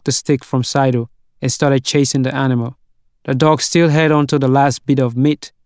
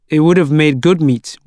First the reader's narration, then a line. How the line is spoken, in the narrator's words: said